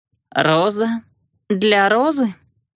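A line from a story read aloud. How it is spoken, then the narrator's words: Hoarse question. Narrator (Russian): спросила я хрипло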